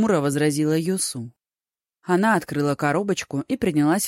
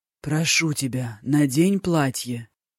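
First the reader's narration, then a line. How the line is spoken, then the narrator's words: Hoarse voice. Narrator (Russian): сиплым голосом произнес Дзяо Тай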